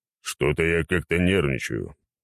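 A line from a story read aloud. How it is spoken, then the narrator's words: Deep bass voice. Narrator (Russian): пробасил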